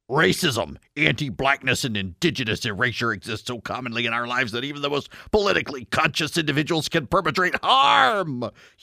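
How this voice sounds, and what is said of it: Put-on mocking character voice. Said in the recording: “read this in my feminist voice ... feminist voice deployed”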